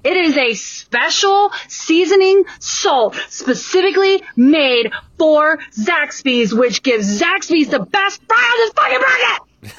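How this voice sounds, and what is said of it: Yelling loudly. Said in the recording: “I'm sorry for yelling.”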